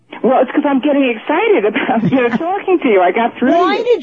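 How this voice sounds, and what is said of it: New York accent. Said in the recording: “I'm an ex-New Yorker... I hear your accent now. I hear it in you. At the beginning, I didn't hear it, but now I can hear it.”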